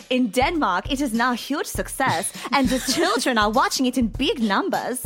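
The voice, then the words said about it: Attempted Danish accent. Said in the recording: “I don't know what accent that was. I apologize to all of our friends from Denmark.”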